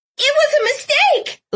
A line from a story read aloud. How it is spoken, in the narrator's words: Lila screeched